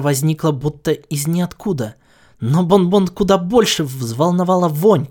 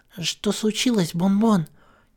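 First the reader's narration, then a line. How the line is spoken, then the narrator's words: Quiet female voice. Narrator (Russian): тихо произнесла она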